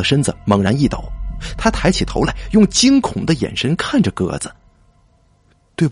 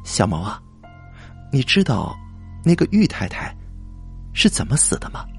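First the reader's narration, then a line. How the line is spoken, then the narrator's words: Low whispered question. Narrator (Chinese): 低声的问他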